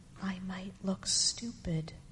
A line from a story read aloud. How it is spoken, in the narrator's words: he confessed in a tiny whisper